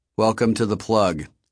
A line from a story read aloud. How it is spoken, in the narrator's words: said in a flat monotone